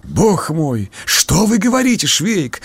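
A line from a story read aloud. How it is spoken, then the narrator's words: Anguished exclamation. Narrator (Russian): горестно воскликнул побледневший поручик Лукаш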